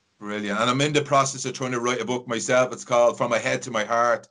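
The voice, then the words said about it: Irish accent. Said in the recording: “I always feel at home when I hear an Irish accent”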